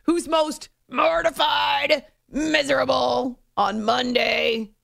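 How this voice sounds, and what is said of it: Growled, low gravelly delivery. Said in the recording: “I have to growl it. It just doesn't sound the same if I say it in my normally happy voice.”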